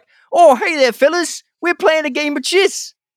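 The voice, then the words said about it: Silly put-on accent. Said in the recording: “I'm no great accent guy, but I just gave them like a dumb accent.”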